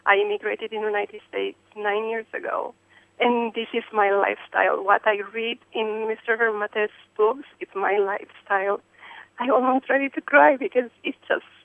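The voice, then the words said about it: European accent. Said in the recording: “Probably you can guess by my accent, I'm not from here. I'm European”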